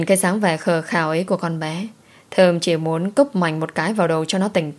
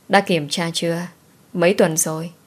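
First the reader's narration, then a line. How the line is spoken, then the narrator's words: Sighing question. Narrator (Vietnamese): Thơm thở dài hỏi em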